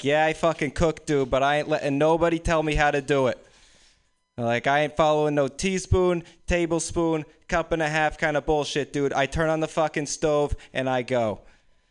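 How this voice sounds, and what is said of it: Put-on Boston accent. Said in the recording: “my Boston impression”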